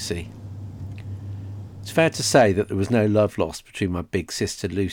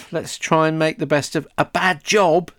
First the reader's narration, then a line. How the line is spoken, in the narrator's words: snapped Delis